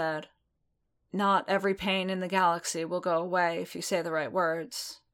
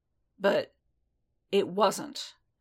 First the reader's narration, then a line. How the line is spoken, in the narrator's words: Din said firmly, with all the conviction he could pull up from his belly